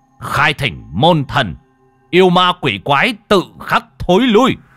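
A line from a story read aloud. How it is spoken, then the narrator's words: Commanding shout. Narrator (Vietnamese): Huy quát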